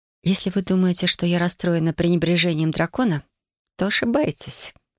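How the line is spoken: Quiet, discreet. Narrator (Russian): тихо сказала я, чтобы нас не услышала баронесса Ван Клоу

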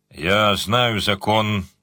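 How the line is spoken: Grumbling. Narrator (Russian): проворчал Джин

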